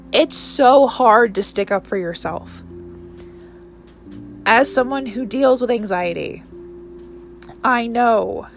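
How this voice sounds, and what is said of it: Emotional, choked-up voice. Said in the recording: “I don't know why I'm getting emotional.”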